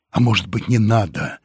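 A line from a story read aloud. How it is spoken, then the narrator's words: Timid suggestion. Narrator (Russian): робко предложил Вадим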